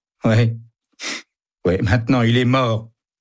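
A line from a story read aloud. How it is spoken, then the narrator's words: Whimpering. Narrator (French): pleurniche Joe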